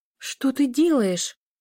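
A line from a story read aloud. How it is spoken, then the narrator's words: Frightened whisper. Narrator (Russian): испуганно прошептала Лиля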